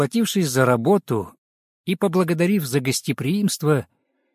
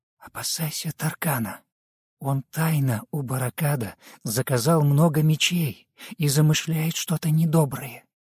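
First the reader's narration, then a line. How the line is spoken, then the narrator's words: Whisper in ear. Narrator (Russian): Бажена прошептала на ухо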